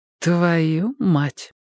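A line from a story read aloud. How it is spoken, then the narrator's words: Thoughtful. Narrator (Russian): задумчиво сообщила Энни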